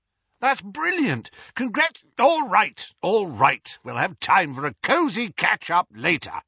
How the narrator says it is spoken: roared Moody over the hubbub

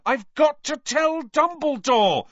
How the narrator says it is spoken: Harry yelled

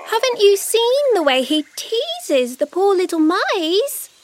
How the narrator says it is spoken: Bush Baby squeaks

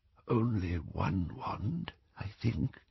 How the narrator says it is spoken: he whispered

